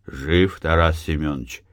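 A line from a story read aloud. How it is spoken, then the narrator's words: Quiet question. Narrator (Russian): Матвей тихо спросил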